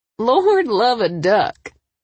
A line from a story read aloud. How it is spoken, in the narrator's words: Dana laughed